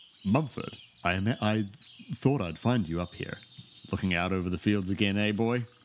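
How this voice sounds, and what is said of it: Mufasa impression, deep regal voice. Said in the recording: “here comes my best Mufasa impression”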